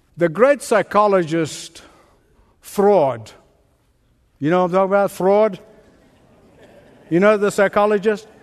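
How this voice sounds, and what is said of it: Speaks with a noticeable accent. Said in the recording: “Freud, I'm sorry, it's my accent. I always blame my accent.”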